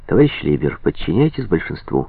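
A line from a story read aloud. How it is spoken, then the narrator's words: Exclamation. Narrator (Russian): воскликнул Дан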